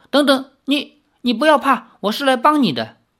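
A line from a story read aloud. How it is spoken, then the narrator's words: Frightened. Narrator (Chinese): 吓得李逍遥 说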